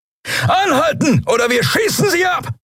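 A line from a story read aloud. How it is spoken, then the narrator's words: Shouted. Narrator (German): brüllte jemand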